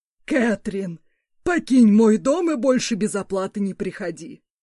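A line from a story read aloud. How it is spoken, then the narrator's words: Growling old man. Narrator (Russian): Рыкнул старик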